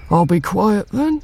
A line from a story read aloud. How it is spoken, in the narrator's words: he says quietly, in his special voice he uses for being quiet